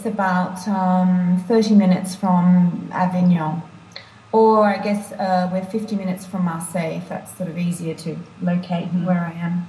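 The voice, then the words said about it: Australian accent, somewhat altered. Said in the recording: “I've got a kind of strange accent these days with a bit of, you know, my Australian accent. And then when you live away, I think your accent alters.”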